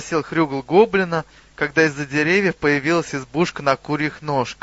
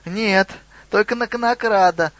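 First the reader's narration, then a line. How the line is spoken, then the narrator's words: Squeaky goblin voice. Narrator (Russian): пропищал гоблин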